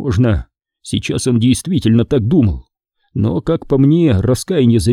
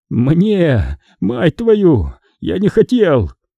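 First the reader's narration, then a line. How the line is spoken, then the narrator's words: Sobbing. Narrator (Russian): всхлипнул сержант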